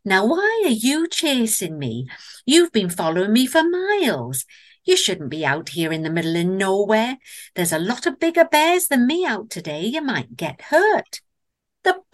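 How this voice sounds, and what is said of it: Gentle female Northern English accent. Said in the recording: “in a gentle female voice. Don't ask me why it had a Northern English accent”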